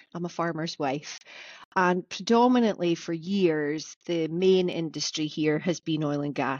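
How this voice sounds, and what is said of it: Aberdeenshire Scottish accent. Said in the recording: “with my funny accent, I live in Aberdeenshire.”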